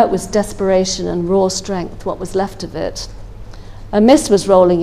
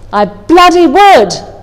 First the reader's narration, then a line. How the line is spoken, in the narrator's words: I yelled